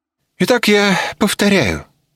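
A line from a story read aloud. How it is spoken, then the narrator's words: Matter-of-fact tone. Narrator (Russian): будничным тоном продолжил Струмс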